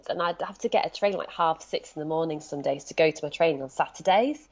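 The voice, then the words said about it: Leeds English accent. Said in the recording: “my accent betrays me. I'm speaking to you sitting in Brighton, but I'm from Leeds.”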